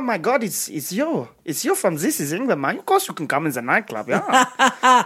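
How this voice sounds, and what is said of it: Put-on accent. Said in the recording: “this week's accent”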